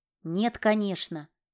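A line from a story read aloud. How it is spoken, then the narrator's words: Small animal snorting. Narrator (Russian): хмыкнул зверек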